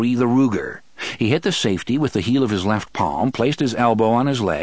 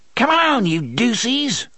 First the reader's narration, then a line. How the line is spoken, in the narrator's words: a relatively young man snarled